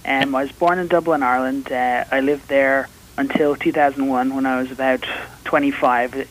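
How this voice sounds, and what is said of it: Irish accent. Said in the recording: “You are Irish ... I am Irish. The accent, I'm told, hasn't traveled as well.”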